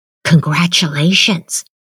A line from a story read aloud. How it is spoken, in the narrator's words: he whispered